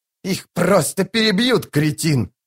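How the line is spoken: Shrill squeal. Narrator (Russian): завизжал Рад престол тени

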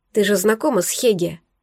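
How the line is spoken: Near whisper. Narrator (Russian): почти прошептала

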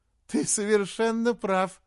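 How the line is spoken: Laughing. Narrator (Russian): сказала она, продолжая смеяться

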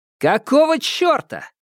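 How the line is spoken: Shout. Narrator (Russian): крикнул Ньют

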